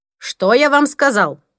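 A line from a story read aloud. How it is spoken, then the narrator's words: Sharp shout. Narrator (Russian): прикрикнул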